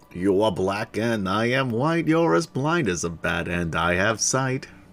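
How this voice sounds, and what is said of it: Imitated voice with New York accent. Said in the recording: “You sound like Joe Piscopo. ... Even had that New York accent going.”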